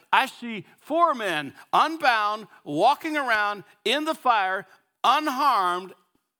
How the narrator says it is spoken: Nebuchadnezzar shouted

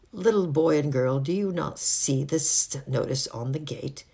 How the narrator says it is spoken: asked in a cold voice

